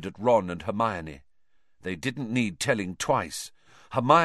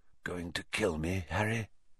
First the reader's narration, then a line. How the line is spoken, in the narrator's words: he whispered